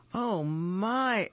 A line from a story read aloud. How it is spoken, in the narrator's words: exclaimed